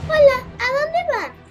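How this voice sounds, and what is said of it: Baby voice. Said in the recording (Spanish): “con voz de bebé”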